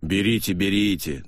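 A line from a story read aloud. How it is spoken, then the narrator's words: Good-natured deep bass. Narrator (Russian): добродушно басил Динтра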